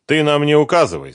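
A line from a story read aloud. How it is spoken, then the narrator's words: Stern reply. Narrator (Russian): строго ответил Юрий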